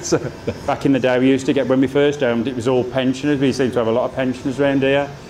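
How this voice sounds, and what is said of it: Thick Black Country accent. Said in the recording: “I'm quite a thick Black Country accent.”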